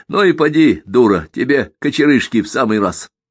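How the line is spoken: Coarse guffawing. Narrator (Russian): Яков грубо всхохатывал

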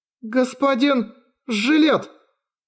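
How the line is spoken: Strained, forced out. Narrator (Russian): С трудом выдавила из себя Виви

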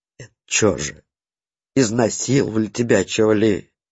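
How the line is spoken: Very quiet, pitying question. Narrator (Russian): Совсем тихо спросил ягодный уполномоченный, от гнева переходя к жалости

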